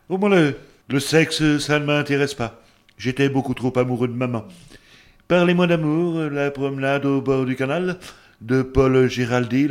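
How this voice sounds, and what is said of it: Croatian accent in French. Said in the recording (French): “Vous avez un accent. ... De Croatie.”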